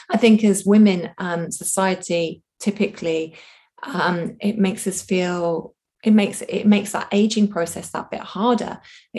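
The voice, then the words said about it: Strained, fading voice. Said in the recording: “I'm losing my voice again.”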